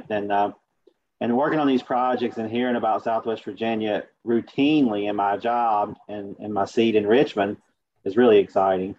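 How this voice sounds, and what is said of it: Appalachian American accent. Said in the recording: “I actually sound like I'm more from Southwest Virginia than Chelsea ... I do have the Appalachian accent”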